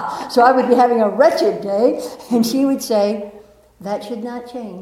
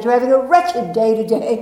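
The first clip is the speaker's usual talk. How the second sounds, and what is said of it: Put-on English accent. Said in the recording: “she'd say in an English accent”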